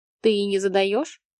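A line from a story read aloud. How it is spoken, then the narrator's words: Skeptical snort. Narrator (Russian): Вадим хмыкнул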